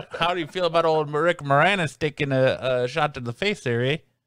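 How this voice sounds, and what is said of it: Put-on Canadian accent. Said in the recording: “Get the Canadian perspective. ... I can't do the accent.”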